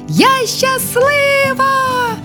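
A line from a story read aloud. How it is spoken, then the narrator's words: Joyful overlapping shouts. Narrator (Ukrainian): усі радісно підхоплювали і волали на випередки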